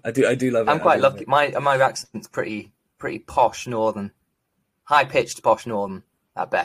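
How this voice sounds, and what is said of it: Usual voice. Nothing is said of it.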